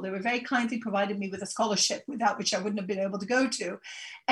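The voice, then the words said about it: British accent. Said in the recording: “she's got the penultimate Great British accent”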